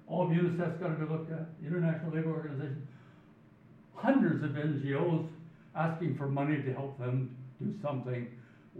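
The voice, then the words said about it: Canadian English accent. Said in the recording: “you can guess from my accent, it's chaired by Canadians”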